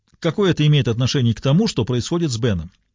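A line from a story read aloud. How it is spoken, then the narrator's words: Sharp retort. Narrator (Russian): резко бросила Диана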